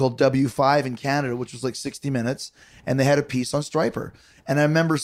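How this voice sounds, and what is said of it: Usual voice. Nothing is said of it.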